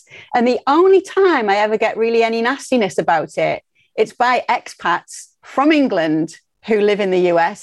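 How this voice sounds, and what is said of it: English accent. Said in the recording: “lovely British accent ... This is not a lovely English accent to many people ... going a little bit more back to my original accent”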